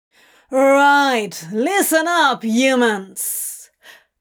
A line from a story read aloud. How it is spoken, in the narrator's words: Crowley roared